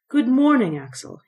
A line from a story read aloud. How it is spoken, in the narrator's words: he cried cheerily